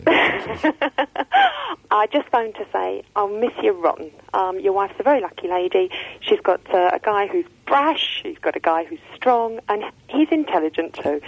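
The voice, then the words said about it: Australian-sounding accent. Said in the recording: “You're another bloody Australian. ... Why do you sound like an Australian?”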